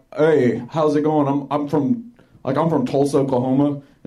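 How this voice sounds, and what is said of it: Oklahoma drawl, falling intonation. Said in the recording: “the Oklahoma accent is like, it's not like, hi, I'm a hick from Oklahoma... It's like a draw, like goes down like that”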